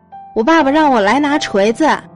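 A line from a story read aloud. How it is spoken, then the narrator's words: Shouting. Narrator (Chinese): 小小又喊道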